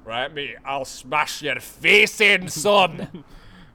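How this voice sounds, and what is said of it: Weak attempted Scottish accent. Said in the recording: “in a Scottish accent ... I'm bad at accents”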